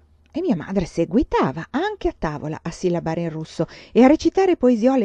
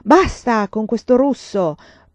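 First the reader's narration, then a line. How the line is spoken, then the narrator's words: Father thundering. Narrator (Italian): tuonava mio padre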